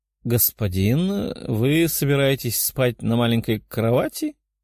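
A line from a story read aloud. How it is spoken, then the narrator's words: Hesitant female question. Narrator (Russian): неуверенно спросила блондинка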